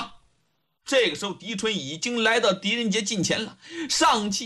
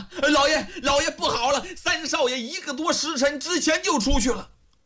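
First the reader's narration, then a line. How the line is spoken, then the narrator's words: Repeated shouting while running. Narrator (Chinese): 狄春 一边跑一边连声喊呐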